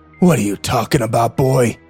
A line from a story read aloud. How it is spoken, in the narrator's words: He growled